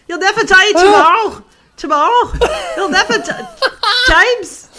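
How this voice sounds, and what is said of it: Weak attempt at a Scouse accent. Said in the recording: “a Scousers version ... Scouser ... I can't do any accents”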